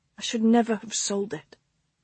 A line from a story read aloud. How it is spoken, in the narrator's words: she mumbled